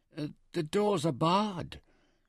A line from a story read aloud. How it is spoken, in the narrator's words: nervously